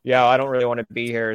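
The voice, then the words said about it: Sudden deep voice. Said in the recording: “I don't know why I suddenly went to a deep voice on that one.”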